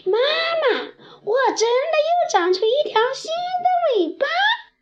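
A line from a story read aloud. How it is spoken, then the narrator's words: Startled cry. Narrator (Chinese): 立刻惊叫起来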